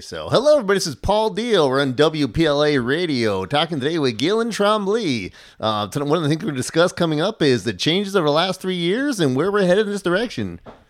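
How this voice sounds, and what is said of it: Polished radio announcer delivery. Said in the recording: “it sounded like you should have been on the air ... a voice for radio”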